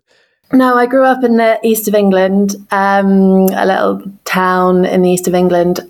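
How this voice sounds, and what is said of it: English accent. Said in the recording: “you have a lovely English accent by the sounds of it”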